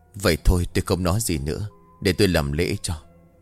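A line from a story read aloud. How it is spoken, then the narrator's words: Calm sigh. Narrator (Vietnamese): Thầy Nam vẫn tỏ ra bình tĩnh, ông thở dài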